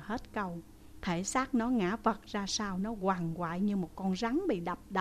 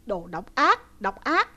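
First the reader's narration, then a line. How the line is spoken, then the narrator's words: Choking, coughing howl. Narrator (Vietnamese): nó ho sặc sụa vừa phun nó vừa gào lên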